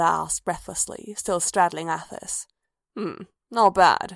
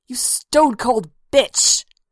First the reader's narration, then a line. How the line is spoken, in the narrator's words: Athis snarled